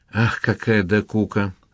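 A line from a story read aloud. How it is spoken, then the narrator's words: Sigh. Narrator (Russian): вздохнула Лина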